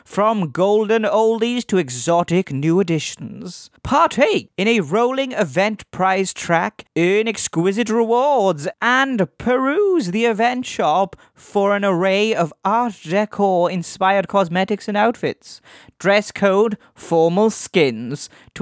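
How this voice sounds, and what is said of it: Weird put-on voice. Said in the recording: “weird voice”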